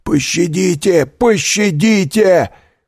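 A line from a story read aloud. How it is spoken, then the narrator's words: Shout. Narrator (Russian): кричал Кадрус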